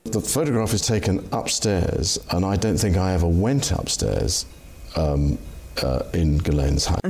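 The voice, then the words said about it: Ghislaine Maxwell's accent. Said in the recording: “the accent”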